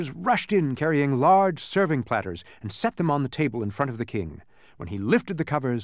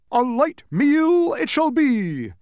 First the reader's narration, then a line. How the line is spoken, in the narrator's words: roared the bug